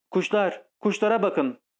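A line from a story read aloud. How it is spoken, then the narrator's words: Shouting. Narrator (Turkish): diye bağırdı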